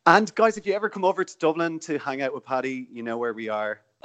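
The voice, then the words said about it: Irish accent. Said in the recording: “Are you Northern Irish? ... No, Southern Irish. So I live in Dublin. ... I thought you sounded Northern.”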